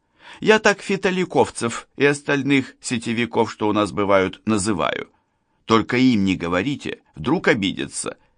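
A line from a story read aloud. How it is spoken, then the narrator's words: Giggling. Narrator (Russian): хихикнула Лана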